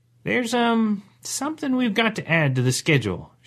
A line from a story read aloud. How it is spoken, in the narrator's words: she said hesitantly